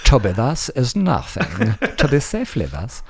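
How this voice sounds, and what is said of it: Put-on theatrical Shakespearean accent. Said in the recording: “Don't do that accent you do. Do this. ... But it's Shakespeare. ... That's the universal accent, isn't it? ... Universal accent.”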